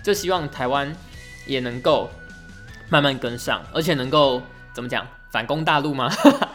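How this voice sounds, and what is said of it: Taiwanese Mandarin accent. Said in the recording (Chinese): “我们的口音其实在整个华语区……是全部通用的，而且应该普遍都觉得台湾的口音还蛮好听的吧”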